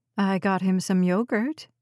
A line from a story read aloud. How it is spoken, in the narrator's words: Meg said